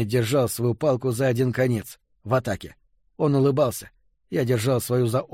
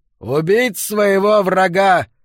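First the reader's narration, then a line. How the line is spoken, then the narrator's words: Shouting. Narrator (Russian): в этот раз выкрикнул Келлен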